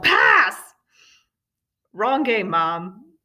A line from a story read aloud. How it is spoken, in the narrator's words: She was flustered and yelled